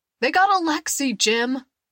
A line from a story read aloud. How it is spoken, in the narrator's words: the man shouted